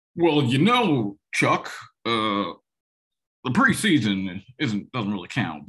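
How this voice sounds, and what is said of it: Imitates another person's voice. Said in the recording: “forgive my lame George W. Bush accent there”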